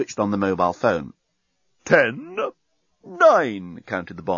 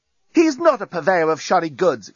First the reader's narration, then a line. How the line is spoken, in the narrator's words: exclaimed Lucy, who, if the truth were told, was a bit hacked off by the reaction to Nettie's entrance